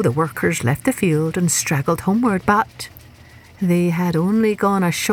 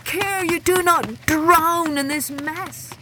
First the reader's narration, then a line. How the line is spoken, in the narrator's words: he cried